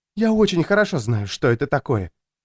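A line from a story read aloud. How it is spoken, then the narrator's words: Quiet, female. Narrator (Russian): тихо сказала женщина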